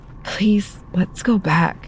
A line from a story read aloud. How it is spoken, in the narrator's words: Madison begged her in a whisper